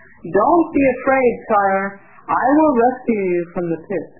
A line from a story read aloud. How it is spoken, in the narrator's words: Aloud, he shouted